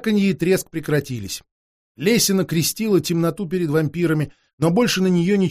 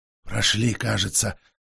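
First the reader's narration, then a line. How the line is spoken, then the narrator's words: Breathless exhale. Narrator (Russian): выдохнул Петр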